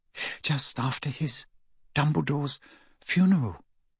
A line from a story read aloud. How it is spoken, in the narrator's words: said Hermione in an even smaller voice